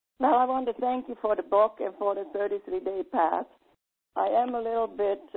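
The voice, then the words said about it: Slightly hoarse, weakened voice. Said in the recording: “my voice is a little bit gone. We have a lot of dust flowing right now... So I could have some help with my voice.”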